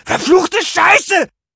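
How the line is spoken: Screaming. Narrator (German): schrie Kyle

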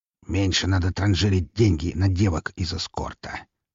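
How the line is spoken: Grumbling. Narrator (Russian): проворчал князь

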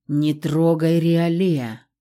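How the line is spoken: Near hiss. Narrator (Russian): почти прошипел Феликс

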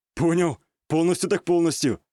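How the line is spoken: Grunting. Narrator (Russian): хмыкнул я

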